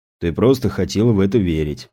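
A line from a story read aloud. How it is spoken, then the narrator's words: Sighing. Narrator (Russian): вздохнул опер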